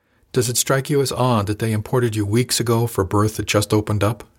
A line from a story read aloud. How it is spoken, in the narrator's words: she asked